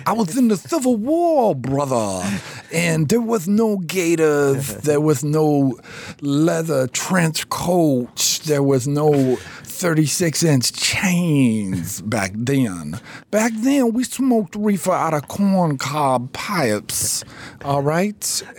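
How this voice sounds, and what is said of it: Southern drawl Dusty Rhodes impression. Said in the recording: “The better Southern accent than I do. You could talk like Dusty Rhodes. Your Dusty Rhodes is the shit.”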